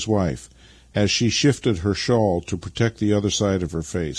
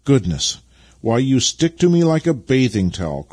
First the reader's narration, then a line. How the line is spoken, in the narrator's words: cried Vasily